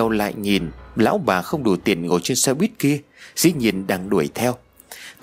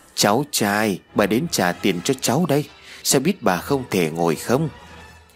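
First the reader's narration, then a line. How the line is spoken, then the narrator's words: Voice from behind. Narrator (Vietnamese): phía sau chuyển đến một câu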